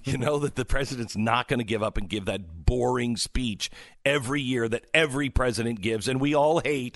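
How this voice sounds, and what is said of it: Excited, energetic delivery. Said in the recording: “Can you hear it in my voice? I'm kind of excited”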